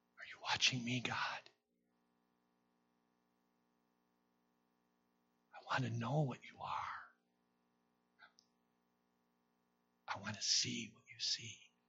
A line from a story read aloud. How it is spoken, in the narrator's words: he whispers again